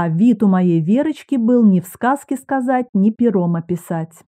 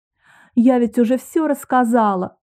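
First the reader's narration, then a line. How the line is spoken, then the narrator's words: Sobbing. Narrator (Russian): всхлипнула Вера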